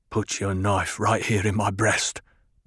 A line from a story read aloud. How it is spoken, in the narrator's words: Gurney muttered